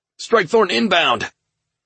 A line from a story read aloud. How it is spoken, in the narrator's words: Ryuichi shouted